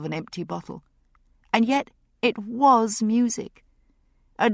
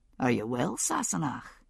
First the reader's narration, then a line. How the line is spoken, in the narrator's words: he asked softly